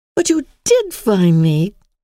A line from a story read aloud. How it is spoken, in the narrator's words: cried Emily